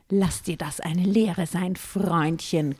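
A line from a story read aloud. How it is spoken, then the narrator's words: Growled. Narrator (German): knurrte ich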